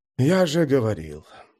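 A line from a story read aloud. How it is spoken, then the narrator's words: Sighing. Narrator (Russian): вздохнул Дул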